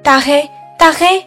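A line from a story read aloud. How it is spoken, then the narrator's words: Calling out. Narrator (Chinese): 我喊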